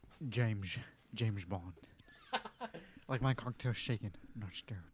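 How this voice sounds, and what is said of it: Sean Connery impression. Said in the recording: “do a Sean Connery impersonation?”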